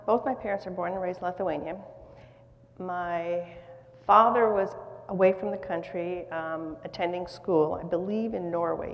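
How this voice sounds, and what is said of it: American accent. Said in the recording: “speaks with an American accent”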